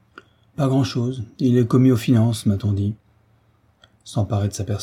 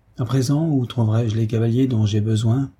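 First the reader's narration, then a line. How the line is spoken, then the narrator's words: Plain question. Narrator (French): demanda l'aventurier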